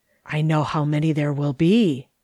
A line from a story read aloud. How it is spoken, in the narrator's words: whispered John